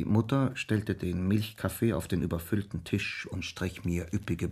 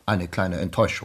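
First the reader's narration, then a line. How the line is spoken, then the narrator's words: Plain. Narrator (German): sagte der Onkel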